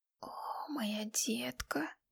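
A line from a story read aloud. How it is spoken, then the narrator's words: Hissed. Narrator (Russian): шипел он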